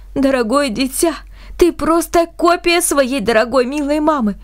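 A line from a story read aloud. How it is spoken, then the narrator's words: Nearly sobbing. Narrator (Russian): как он сказал, почти всхлипывая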